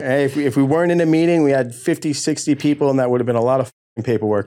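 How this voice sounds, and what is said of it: New York accent. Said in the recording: “a New York accent”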